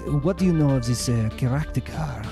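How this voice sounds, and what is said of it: Put-on French accent. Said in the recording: “Raffaello has a French accent, so he goes,”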